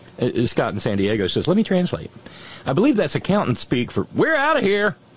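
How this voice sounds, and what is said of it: Usual voice. Nothing is said of it.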